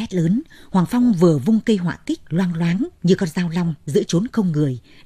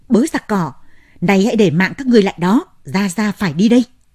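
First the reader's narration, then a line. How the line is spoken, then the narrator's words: Loud yell. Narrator (Vietnamese): Hoàng Phong hét lớn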